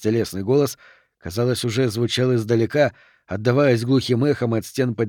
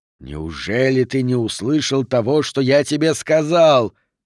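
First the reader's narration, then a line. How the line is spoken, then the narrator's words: Hiss. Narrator (Russian): прошипел Мефисто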